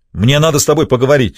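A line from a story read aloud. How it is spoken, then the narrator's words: Barked. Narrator (Russian): рявкнул Тони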